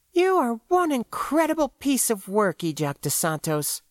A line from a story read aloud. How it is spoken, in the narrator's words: pronounced bitterly